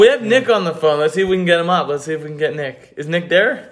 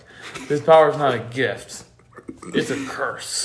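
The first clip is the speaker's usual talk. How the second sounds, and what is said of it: Imitates a movie character's voice. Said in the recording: “That was a good impression.”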